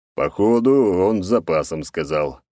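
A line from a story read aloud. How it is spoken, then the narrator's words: Old man smirking. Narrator (Russian): усмехнулся старик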